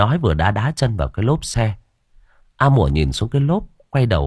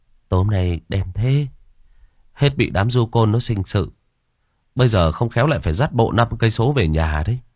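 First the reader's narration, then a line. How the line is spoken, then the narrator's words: Sighing. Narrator (Vietnamese): Hùng thở dài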